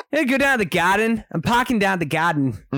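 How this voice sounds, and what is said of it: Weak attempt at a Boston accent. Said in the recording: “I'm doing the whole episode in an accent ... it's not there right now ... The thing with the Boston accent ... the Boston accent just isn't there yet”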